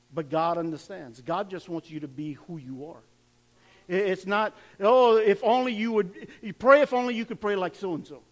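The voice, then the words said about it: Cajun accent. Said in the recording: “I speak with a Cajun accent. I pray with a Cajun accent.”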